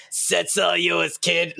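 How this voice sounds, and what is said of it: Gravelly old smoker voice. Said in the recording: “Like, old smoker voice.”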